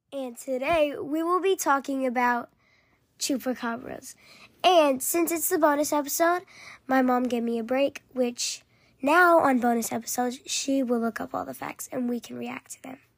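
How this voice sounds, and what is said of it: Sore, hoarse-sounding voice. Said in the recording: “sorry that my voice sounds a little different. ... Her throat's been sore.”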